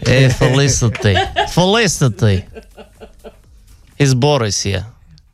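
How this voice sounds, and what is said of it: Put-on Russian accent. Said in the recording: “Should I do it in a Russian accent from earlier?”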